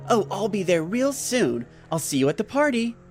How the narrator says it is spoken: Jim said in an excited voice

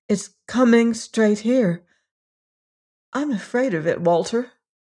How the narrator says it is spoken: said with a little gasp

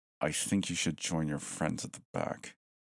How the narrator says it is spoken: he said coldly

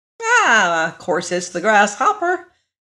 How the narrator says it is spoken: exclaimed Billina

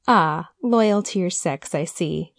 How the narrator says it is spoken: he laughed

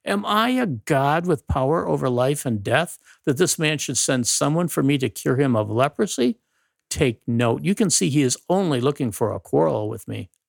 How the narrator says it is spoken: the king of Israel tore his garments and exclaimed

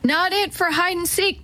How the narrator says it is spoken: Teddy yelled

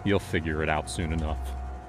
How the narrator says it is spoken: I said, my voice cold, almost distant

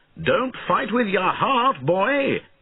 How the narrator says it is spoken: shouted Bowen

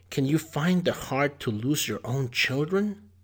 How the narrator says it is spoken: exclaimed the woodcutter's wife

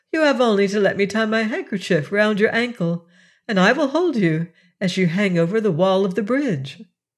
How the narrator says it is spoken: laughed the princess

